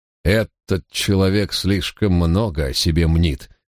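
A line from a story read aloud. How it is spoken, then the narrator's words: Contemptuous snort. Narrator (Russian): презрительно хмыкнул Гардинер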